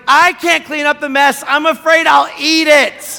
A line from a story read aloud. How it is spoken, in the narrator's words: I yelled to my wife